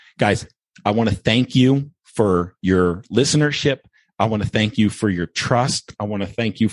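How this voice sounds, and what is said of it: Usual voice. Nothing is said of it.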